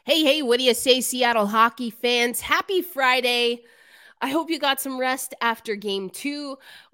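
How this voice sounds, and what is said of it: Hoarse, nearly lost voice. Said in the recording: “My voice, I absolutely lost my voice.”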